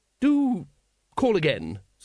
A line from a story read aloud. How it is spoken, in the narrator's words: said Lady Ramkin, more coldly